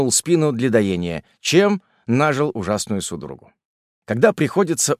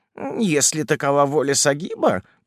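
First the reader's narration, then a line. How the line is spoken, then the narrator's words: Grumbling. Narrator (Russian): проворчал Фесулла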